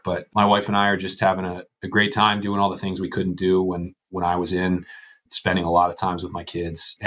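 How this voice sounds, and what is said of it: Slightly ill-sounding voice. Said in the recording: “if anyone can tell in my voice, I've got a little bit of a fever”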